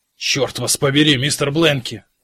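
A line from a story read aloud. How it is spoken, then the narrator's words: Booming bass echoing in tunnel. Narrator (Russian): гулко прогремел бас капитана Кразье в ледяном тоннеле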